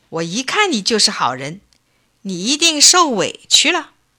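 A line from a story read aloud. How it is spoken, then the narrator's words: Delighted, beaming. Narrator (Chinese): 王爷以为老汉递的是金子，高兴得眉开眼笑，说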